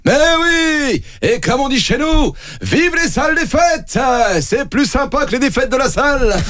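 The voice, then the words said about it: Strong southwestern French accent. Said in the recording (French): “Avec un accent du sud-ouest très prononcé”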